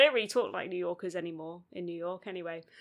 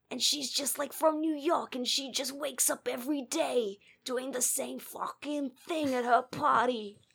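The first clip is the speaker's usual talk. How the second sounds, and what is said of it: Weak put-on New York accent. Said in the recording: “That was my New York accent. It's not very good.”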